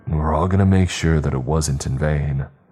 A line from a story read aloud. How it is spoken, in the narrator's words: I said in the most reassuring tone that I could muster